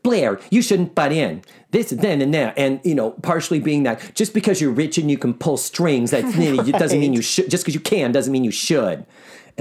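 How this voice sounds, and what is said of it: Imitates another person's voice. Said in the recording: “my best Sue Ann impression”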